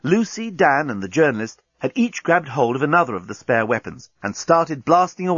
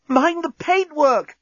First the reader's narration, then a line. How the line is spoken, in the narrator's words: gasped Corporal Inchby Wiglet